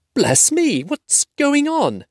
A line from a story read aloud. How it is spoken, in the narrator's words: cried